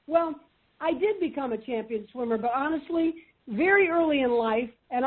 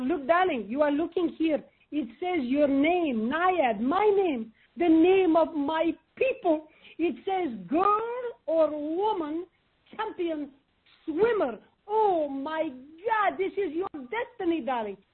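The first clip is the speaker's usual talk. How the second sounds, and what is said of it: Imitating father's thick foreign accent. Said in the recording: “his accent, by the way, was thicker than my mother's”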